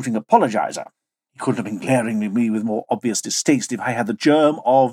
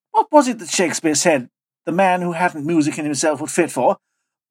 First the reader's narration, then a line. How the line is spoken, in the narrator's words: called out of the passage